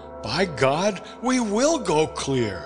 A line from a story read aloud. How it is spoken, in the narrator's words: I cried five minutes later